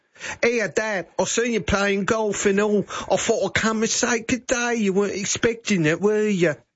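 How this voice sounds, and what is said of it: Put-on English accent. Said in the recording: “Do you reckon she came back with an English accent? ... I'd cry too if my daughter spoke like that.”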